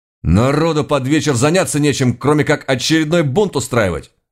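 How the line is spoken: Barked. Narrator (Russian): рявкнул я на него

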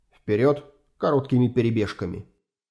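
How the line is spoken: Quiet. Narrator (Russian): Юрген тихо сказал

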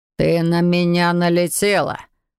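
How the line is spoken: Through gritted teeth. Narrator (Russian): процедил маг

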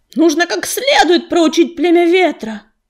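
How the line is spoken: Shouting. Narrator (Russian): кричал Белохвост

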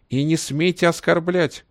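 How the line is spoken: Fat woman shrieking. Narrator (Russian): завизжала толстуха

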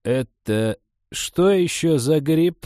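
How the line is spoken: Confused mutter. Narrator (Russian): растерянно пробормотала Николаевна

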